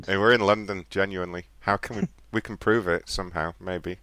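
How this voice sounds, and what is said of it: British accent. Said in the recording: “Where do our accents sound like? ... Well, I would guess, like, British. ... are you legitimately British, or are you just really good at the accent? ... No, we're legit British.”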